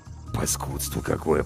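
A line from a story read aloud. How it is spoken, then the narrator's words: Grumbling mutter. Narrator (Russian): пробурчал Зверев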